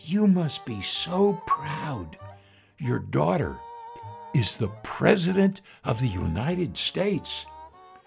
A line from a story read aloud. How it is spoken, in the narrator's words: a stranger leans over and whispers in the mother's ear